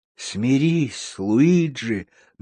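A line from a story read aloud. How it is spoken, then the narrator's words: Soft reply. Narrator (Russian): мягко ответил худой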